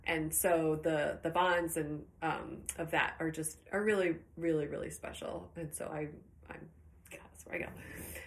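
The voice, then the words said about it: Choked-up, emotional voice. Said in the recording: “A little choked up”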